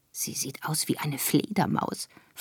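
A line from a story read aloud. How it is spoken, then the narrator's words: Whisper. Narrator (German): flüsterte ich Plombe zu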